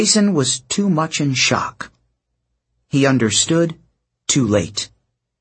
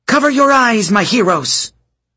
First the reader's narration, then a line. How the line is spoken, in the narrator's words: She shouted